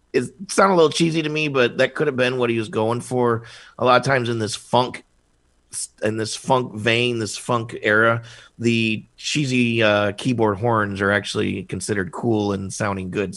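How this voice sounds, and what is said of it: Hoarse, dry, strained voice. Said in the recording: “I'm losing my voice real dry today.”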